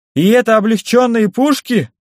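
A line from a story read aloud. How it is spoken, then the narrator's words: Exclaiming. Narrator (Russian): воскликнул Зигмунд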